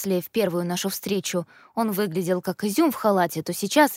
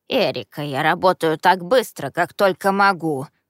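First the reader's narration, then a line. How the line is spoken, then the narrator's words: Grumbling. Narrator (Russian): ворчал господин Горячий, глава факультета помощи и возвращения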